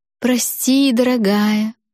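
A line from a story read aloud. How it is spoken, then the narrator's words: Unctuous sweet voice. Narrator (Russian): проговорила я самым елейным голосом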